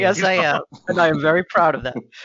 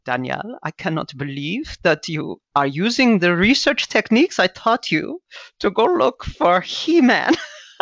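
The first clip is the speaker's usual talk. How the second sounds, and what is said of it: Imitates a teacher's funny accent. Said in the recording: “She had a funny accent.”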